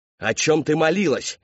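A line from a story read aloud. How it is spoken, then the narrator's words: Father roaring. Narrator (Russian): взревел отец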